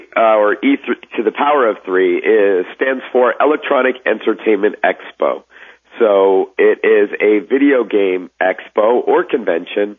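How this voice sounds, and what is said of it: Raspy voice. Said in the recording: “I apologize in advance for my raspy voice, but that's what happens when you're at a convention like E3.”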